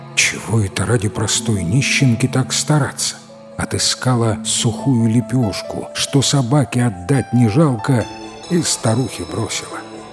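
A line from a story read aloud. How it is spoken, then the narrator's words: Muttering. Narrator (Russian): бормочет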